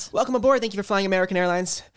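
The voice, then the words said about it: Airline pilot announcement impression. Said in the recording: “do his pilot impression”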